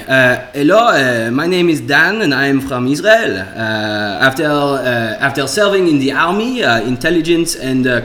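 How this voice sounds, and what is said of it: Put-on Israeli accent. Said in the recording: “do uh, a Bitcoin shill in an Israeli accent ... Israeli, Israeli. You want me to do Israeli?”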